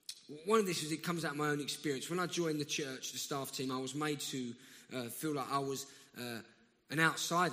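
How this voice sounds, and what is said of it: South London accent. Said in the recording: “my South London accent”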